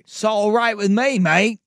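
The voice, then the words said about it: Poor English accent, sounds Australian. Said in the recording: “Terrible accent... All my English is Australian.”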